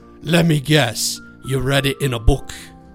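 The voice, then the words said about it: Poorly done put-on accent. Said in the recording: “my accents are terrible”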